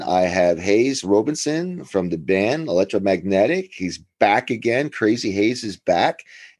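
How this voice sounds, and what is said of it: American East Coast accent. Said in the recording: “Is that East Coast accent, you haven't lost it now that you're in Japan”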